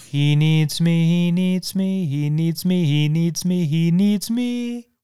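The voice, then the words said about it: Imitated voice, deliberately off-key singing. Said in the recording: “my best Shelley Duvall impression ... I don't need to sing this well because she sings it terribly ... it's so off tune”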